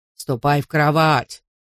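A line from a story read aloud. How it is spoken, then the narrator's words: Rough mocking. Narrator (Russian): грубо передразнил он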